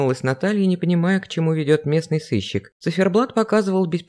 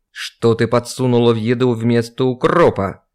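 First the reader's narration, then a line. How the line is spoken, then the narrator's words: Man's growl. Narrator (Russian): прорычал мужчина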